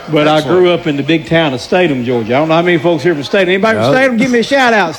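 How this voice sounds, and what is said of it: Southern US Georgia accent. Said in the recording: “I'm a native Georgian. If you can't tell my accent, you sure can't.”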